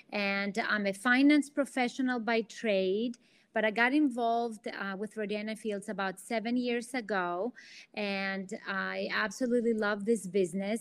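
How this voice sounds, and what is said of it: Greek accent. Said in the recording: “I'm originally from Athens, Greece. That's the accent you hear.”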